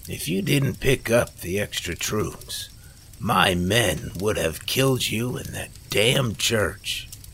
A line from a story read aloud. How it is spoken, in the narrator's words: Frankie said as he chuckled again